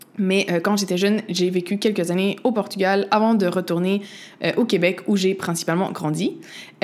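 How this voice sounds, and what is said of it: Québécois French accent. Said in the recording (French): “je suis née au Québec. Tu l'entends peut-être dans mon accent.”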